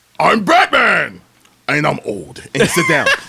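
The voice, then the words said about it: Shouty imitation of a Batman voice. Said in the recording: “your Michael Keaton impersonation... That was a Christian Bale, wasn't it?... Christian Bale was like the screamo emo.”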